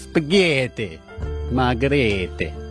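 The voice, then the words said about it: Put-on Italian accent. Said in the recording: “Do your Italian accent.”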